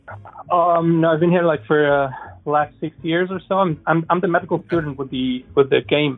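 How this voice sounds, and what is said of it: Slight Middle Eastern accent. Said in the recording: “You have a slight accent, and I don't hear German in it ... I kind of had a Middle Eastern kind of thing going there”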